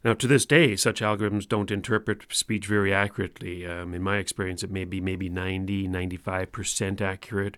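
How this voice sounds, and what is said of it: Newfoundland accent. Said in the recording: “maybe it's my Newfoundland accent.”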